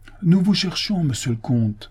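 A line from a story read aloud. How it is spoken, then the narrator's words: President exclaiming. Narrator (French): s'écria le président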